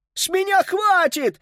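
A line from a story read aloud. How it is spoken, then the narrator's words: Yelling. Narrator (Russian): орал он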